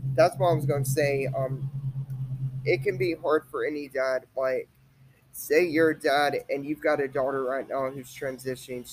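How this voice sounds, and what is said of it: Voice cutting out, throaty, coughing. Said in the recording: “my voice is like cutting out tonight and I'm like coughing like that. I've got something down my throat.”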